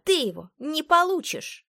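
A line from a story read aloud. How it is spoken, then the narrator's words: Barking. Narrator (Russian): рявкнула она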